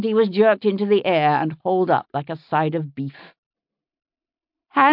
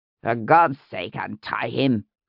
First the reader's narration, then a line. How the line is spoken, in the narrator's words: it said impatiently